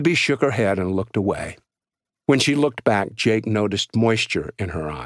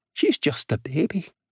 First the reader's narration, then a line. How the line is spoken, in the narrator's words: she said softly